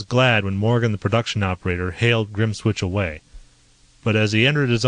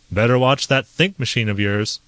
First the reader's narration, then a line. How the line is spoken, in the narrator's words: Grimswitch chuckled